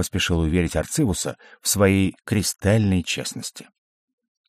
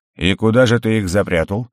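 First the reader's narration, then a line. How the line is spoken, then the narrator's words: Skeptical snort. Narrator (Russian): хмыкнул Арцивус, говоря этим, что он не слишком высоко оценивает умственные способности сидящего напротив него Гаррета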